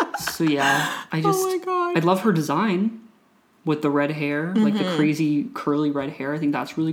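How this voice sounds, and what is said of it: Usual voice. Nothing is said of it.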